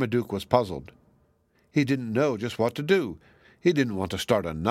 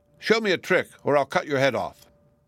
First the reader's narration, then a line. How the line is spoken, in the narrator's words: The queen seemed a little out of sorts, she said sharply